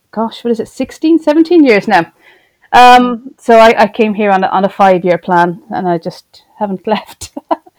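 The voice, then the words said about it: Irish accent. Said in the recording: “as you can tell from the accent, not a native of Plymouth ... born, educated, brought up in Ireland, in Cork City”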